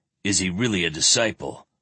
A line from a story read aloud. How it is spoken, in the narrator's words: Perrain snorted